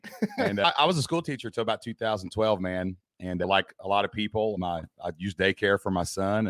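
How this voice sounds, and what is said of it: Southeast Kentucky dialect. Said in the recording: “from Southeast Kentucky ... if you confuse my intellect for my dialect”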